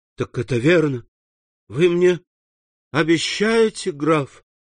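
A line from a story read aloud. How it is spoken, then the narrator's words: Rapturous exclamation. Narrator (Russian): воскликнул Максимилиан в упоении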